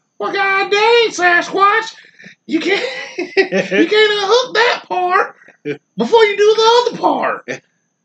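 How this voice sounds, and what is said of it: Imitates another person's voice. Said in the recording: “Do your Bob impersonation. ... It's terrible.”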